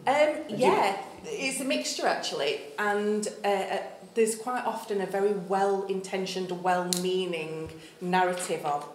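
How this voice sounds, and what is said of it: Northern English accent. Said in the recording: “they hear your accent and the way you use, pronounce some words ... someone Northern ... there's a lot of us who talk like this”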